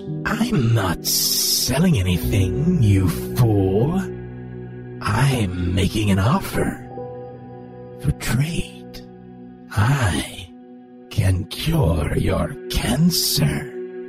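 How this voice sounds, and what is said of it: Raspy, hissing voice. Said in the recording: “The raspy voice spoke with a hiss.”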